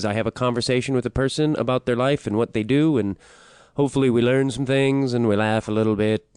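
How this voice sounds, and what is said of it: Affected voice. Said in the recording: “in this affected voice”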